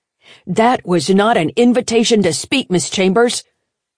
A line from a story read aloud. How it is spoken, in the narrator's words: he roared at her